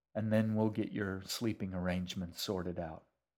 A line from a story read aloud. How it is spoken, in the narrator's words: he said quietly